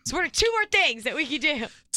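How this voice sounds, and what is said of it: Loud excited yelling. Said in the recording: “Why am I yelling?... really excited.”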